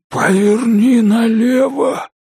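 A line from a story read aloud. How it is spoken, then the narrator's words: Hoarse rasp. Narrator (Russian): прохрипел Элтон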